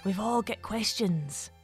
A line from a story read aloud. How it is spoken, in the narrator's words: the fairy whispered back at her